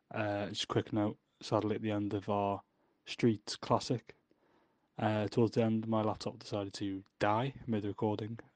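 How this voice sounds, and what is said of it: Sore-throated, tired voice. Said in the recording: “I've got a sore throat. And I'm dragging ... this illness is taking over”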